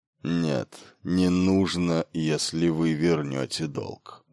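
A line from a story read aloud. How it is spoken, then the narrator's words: Yielding mutter. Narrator (Russian): уступчиво пробормотал он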